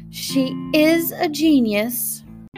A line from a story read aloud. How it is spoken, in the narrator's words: Robinson exclaimed